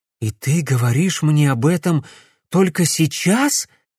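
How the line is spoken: Breathed out. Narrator (Russian): выдохнул он

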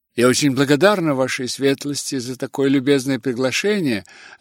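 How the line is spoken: Plain. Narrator (Russian): ответила Элизабет

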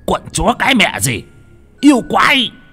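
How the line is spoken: Pained shout. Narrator (Vietnamese): Ông thầy Út ôm ngực cũng quát lên

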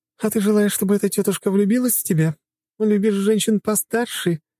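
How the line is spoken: Giggling. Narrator (Russian): хихикала она

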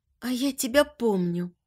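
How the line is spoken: Soft whisper, girl. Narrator (Russian): тихо прошептала девушка

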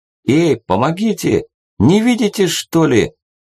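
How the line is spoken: Shouting from above. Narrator (Russian): крикнул ему сверху Максим

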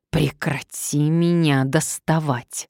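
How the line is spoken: Hissing. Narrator (Russian): зашипела она

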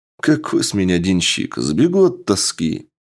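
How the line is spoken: Chuckling. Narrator (Russian): Генерал хохотнул

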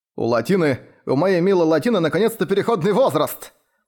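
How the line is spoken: Shouting at top of lungs. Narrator (Russian): закричал он во все горло

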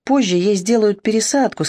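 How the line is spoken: Plain. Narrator (Russian): сказала медсестра

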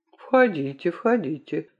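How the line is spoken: Quiet. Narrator (Russian): тихо сказал Мегре

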